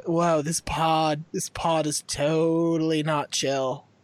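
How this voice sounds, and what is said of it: Put-on West Coast accent. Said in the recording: “You can do a West Coast accent.”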